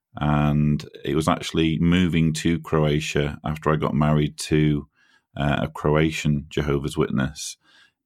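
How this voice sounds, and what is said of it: British English accent, Manchester. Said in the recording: “You can probably tell from my accent that I'm a Brit. I was born and raised in Manchester or near Manchester in the UK.”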